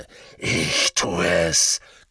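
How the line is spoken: Growled. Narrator (German): knurrte Greyback

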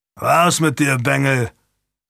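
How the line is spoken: Growled. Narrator (German): knurrte er

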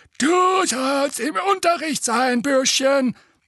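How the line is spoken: Croaking stone gargoyle. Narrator (German): krächzte der eine

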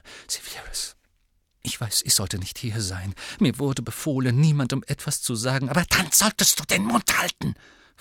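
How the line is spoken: Hissing. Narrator (German): fauchte Bellatrix

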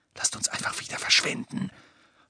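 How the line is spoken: Whispered. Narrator (German): flüsterte Hermine

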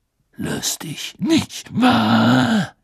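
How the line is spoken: Growling. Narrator (German): knurrte

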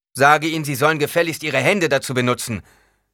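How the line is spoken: Calling back. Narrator (German): rief Paul zurück

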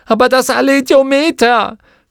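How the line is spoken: Grief-stricken scream. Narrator (German): schrie sie, vor Kummer

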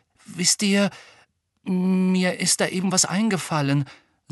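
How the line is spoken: Hushed, muffled voice. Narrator (German): sagte Ron mit gedämpfter Stimme

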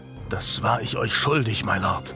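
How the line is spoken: Whisper. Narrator (German): Der Henker Julian zuzuflüstern

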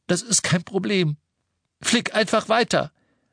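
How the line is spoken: Calling back. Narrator (German): rief Harry zurück

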